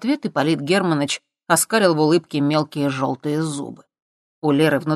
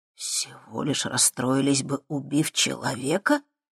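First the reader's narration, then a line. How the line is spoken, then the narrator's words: Shocked exhale. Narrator (Russian): потрясенно выдохнул Макс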